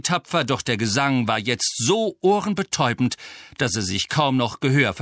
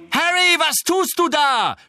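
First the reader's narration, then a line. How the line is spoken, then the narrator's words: Screaming. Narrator (German): schrie Angelina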